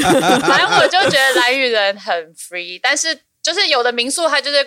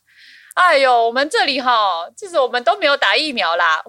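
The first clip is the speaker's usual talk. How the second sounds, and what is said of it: Very noticeable regional accent. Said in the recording (Chinese): “你有听到他刚刚的口音吗？ ... 你有口音， ... 超明显，超明舌边这种不小心自己卷舌的人都听到了。”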